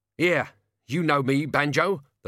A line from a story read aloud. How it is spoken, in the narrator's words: the locksmith croaked, struggling in midair